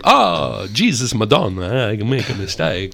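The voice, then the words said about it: Bad put-on Italian accent. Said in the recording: “The bad accent ... Anytime I try to attempt Italian, Italians put their hands to their ears”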